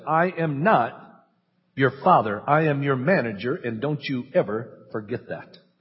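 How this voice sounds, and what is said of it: Very firm, stern voice. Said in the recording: “in a very firm voice”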